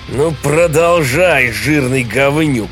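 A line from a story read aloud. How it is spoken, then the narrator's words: Roaring. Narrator (Russian): проревел он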